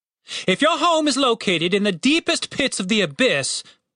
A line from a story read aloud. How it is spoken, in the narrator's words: bellowed the captain